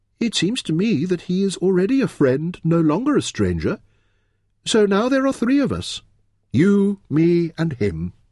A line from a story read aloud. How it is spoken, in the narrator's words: she added happily